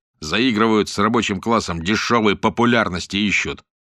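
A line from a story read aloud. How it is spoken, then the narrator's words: Angry. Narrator (Russian): сердито сказал Панкрат Евтихич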